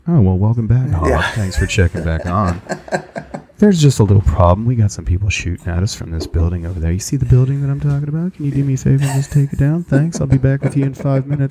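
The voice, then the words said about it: Calm newscaster-style military radio voice. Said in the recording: “You turn into a newscaster. ... It doesn't sound like you're from anywhere in the country. It sounds like you're from space. But the JTAG radio voice thing”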